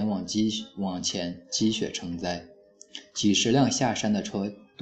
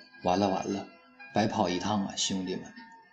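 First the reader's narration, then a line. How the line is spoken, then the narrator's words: Sighing in agreement. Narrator (Chinese): 我附和着他，叹口气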